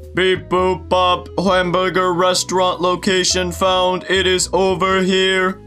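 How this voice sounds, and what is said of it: Robot voice. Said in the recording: “in a robot voice”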